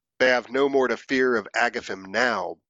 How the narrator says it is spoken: bellowed Grignr in a deep, mirthful tome, a gleeful smirk upon his face

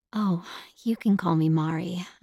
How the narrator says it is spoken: I replied softly in Japanese

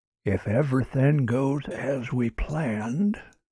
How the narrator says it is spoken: whispered Kutch

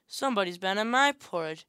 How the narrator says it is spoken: said the middle bear in her middle voice

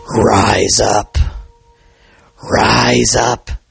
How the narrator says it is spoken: it croaked

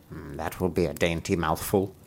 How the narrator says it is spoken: she muttered to herself

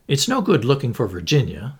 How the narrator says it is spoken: said Bundle sharply

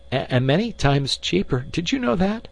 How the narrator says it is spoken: Roger countered feebly

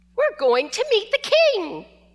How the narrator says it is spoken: Shushu excitedly shouted or barked

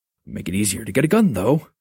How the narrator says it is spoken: he mumbled

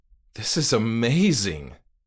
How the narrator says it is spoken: cried, my eyes watering

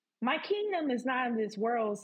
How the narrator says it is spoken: said Jesus

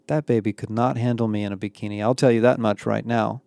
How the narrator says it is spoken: Becky murmur to Emma

